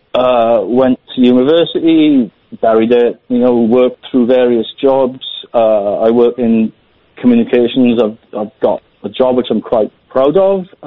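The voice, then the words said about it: Slight Welsh accent. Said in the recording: “My accent's a bit Welsh.”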